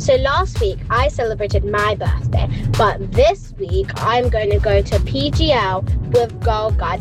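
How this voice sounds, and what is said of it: Cheerful, very energetic voice. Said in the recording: “You sound like a ray of sunshine ... So much energy.”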